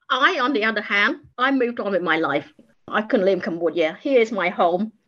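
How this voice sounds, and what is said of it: Non-native English accent. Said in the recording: “The color of my skin, the accent that I'm speaking, I will never be English.”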